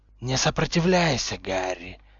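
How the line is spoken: Hissing voice inside head. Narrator (Russian): прошипел хорошо знакомый голос, исходящий, казалось, изнутри его головы

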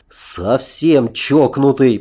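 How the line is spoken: Grumbling. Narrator (Russian): продолжал ворчать Аркадий

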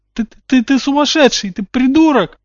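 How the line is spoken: Whimpering. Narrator (Russian): захныкал Дадли

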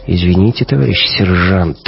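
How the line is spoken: Sighing. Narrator (Russian): вздохнул Гумилев

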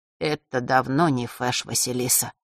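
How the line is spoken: Muffled, hollow voice. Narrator (Russian): глухо произнес Маар

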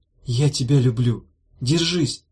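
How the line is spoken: Whisper. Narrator (Russian): шепнула Дафна

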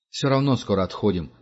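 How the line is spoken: Plain. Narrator (Russian): сказал Франц

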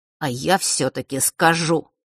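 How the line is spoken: Through gritted teeth. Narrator (Russian): процедил Фэш

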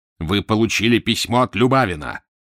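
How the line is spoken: Menacing growl. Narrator (Russian): прорычал Фандорин страшным голосом

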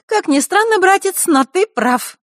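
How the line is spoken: Cheerful snort. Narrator (Russian): вдруг весело фыркнула Захарра

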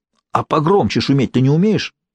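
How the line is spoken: Angry question. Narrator (Russian): сердито спросил Джинкс

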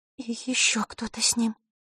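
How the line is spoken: Quiet ringing voice. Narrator (Russian): Тихо прозвенело зеркало

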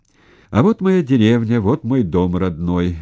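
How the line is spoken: Cheerful shout. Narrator (Russian): весело крикнул шофер-танкист

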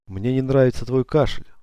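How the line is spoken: Sighing. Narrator (Russian): вздохнула Шерон

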